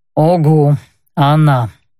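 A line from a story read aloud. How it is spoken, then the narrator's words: Mutter. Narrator (Russian): буркнул тот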